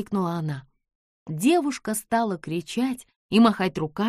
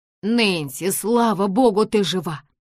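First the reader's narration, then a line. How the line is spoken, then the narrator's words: Exclaimed. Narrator (Russian): воскликнул Нэт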